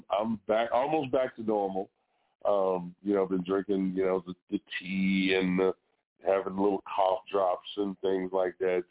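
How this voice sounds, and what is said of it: Slightly hoarse, recovering voice. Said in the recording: “I lost my voice last week ... I'm at 70% ... You can probably tell I sound a little different”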